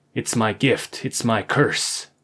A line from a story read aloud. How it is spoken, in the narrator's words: growled, disapprovingly